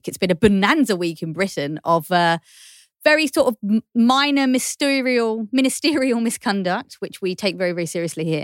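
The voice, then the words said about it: Dreamy British accent. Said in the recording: “dreamy accent ... she's a Brit”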